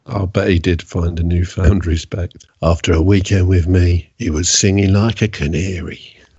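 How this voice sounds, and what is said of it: Impression of Peter Blexley. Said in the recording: “that is your prerequisite impression ... my terrible impression of him”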